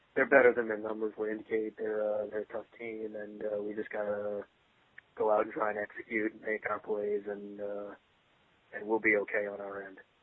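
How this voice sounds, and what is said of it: Bland, flat Bill Belichick impression. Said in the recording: “read the injury report, field 3 questions, answer in the most bland, platitude way imaginable ... do a Bill Belichick impression”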